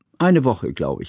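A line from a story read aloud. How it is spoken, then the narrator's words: Plain. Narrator (German): sagte Johanna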